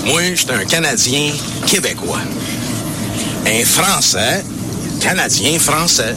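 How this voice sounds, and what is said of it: Québécois French accent. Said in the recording (French): “Vous avez l'accent.”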